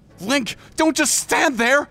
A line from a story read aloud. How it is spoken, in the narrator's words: Navi said urgently